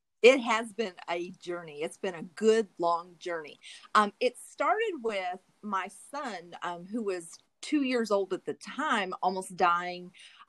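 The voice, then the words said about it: Southern US accent. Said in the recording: “you'll hear her beautiful Southern accent.”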